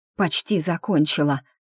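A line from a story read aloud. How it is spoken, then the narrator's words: Hoarse. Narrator (Russian): прохрипела я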